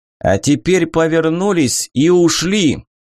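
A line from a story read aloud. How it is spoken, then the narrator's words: Loud over the noise. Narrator (Russian): Он пересиливая шум, громко сказал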